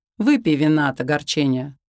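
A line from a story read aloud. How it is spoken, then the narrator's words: Mocking, triumphant. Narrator (Russian): насмешливо выдавал, словно он победил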